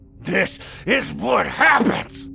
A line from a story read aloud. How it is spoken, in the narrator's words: Carl growled and coughed